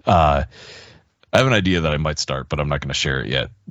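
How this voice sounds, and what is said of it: Strained voice, losing her voice. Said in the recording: “excuse me, I'm losing my voice.”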